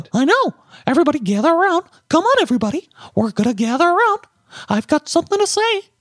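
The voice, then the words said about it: Mickey Mouse impression. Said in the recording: “I can do a good Mickey Mouse. ... That's really good.”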